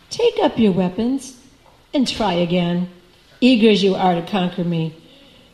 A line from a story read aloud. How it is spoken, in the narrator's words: the Lord told the demon coolly